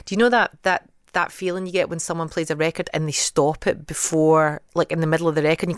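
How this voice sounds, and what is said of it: Genuine Scottish accent. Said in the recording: “especially in a Scottish accent... what about yours?... mine is genuine and it's original”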